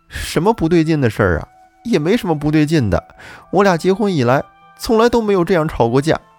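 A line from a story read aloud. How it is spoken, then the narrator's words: Crying. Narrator (Chinese): 王丽哭着说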